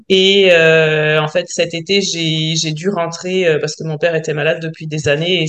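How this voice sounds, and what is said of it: French accent. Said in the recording (French): “je suis française, j'imagine que les gens l'auront peut-être entendu à mon accent”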